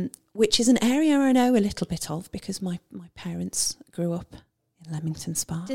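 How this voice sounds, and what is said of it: Usual voice. Nothing is said of it.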